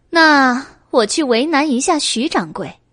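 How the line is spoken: Laughing. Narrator (Chinese): 白姬笑道

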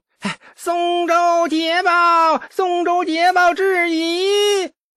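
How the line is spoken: Shrill joyful shout. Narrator (Chinese): 宦官尖细欣喜的大叫

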